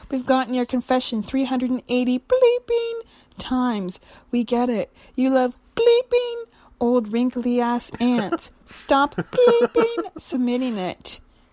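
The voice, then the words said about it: Put-on old granny voice. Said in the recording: “What accent should I put on to read this? ... Your dirtiest granny accent.”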